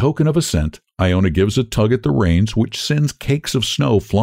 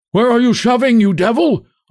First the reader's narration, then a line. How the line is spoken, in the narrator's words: Iona immediately hears shouts from the dark mass